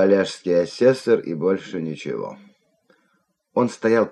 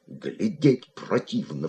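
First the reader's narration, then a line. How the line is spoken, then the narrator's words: Muttering. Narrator (Russian): бормотал он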